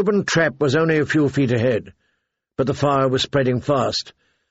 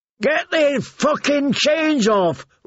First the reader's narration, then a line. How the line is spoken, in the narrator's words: Rogue screamed